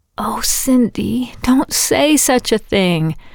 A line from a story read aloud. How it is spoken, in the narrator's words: Hannah had wheezed from her pillow